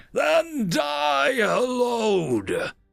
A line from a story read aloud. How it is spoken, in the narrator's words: came the return scream that blew out psychic processing arrays